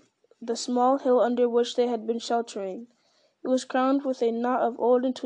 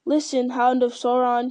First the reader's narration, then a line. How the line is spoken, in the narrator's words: he cried